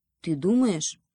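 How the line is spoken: Hare, gloomy question. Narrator (Russian): уныло спросил заяц

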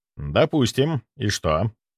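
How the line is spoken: Calm question. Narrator (Russian): спокойно спросил я

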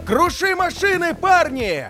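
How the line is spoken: Booming unknown voice shouting. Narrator (Russian): громогласно кричал неизвестный голос

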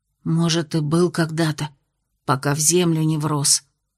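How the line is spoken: Whisper. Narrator (Russian): ответила также шепотом Аделин

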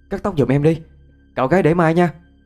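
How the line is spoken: Almost shouting. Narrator (Vietnamese): nói mà như hét

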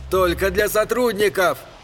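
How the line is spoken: Shouting. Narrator (Russian): Крикнул Эдди

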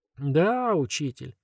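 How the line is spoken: Listless drawl, several voices. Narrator (Russian): вяло протянули трое

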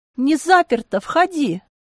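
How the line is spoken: Relieved shout. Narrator (Russian): Я облегченно выдохнула и крикнула

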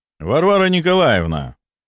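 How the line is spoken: Formal, cold tone. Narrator (Russian): Обратился я максимально официальным и холодным тоном

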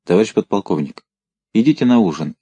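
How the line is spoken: Quiet voice. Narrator (Russian): тихо сказал чей-то голос

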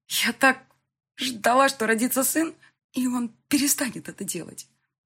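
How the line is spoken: Sobbing. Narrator (Russian): всхлипывала она

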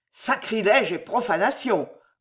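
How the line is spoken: Growling. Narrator (French): gronda l'un d'eux

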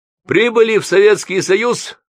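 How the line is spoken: Loud over-clear question. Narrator (Russian): громко, как глухого спросил сосед

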